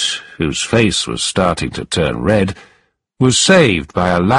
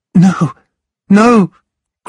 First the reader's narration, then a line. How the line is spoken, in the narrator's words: cried Nell